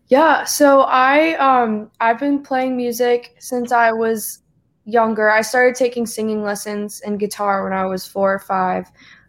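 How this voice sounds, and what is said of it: Slight Southern twang, mixed accent. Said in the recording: “I'm from South Carolina, so I've got a little bit of a twang ... Sometimes people can hear it, sometimes people can't. My parents are from New England, so it's like a very weird accent ... Every once in a while, at the end of one of your words, you get a little southern drawl”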